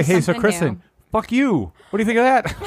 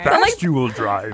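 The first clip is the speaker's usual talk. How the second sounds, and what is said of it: Fozzie Bear-like puppet voice. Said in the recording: “Okay, that's the little Fozzie Bear.”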